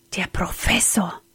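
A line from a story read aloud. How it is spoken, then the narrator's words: Frightened whisper. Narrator (German): flüsterte er erschrocken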